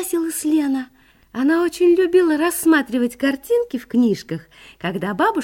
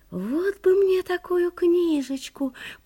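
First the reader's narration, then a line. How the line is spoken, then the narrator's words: Whispered. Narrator (Russian): прошептала Лена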